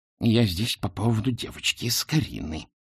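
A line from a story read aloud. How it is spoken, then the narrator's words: Hissing. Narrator (Russian): прошипела она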